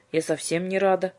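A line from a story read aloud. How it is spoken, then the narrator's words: Grumbling. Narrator (Russian): буркнула Юлька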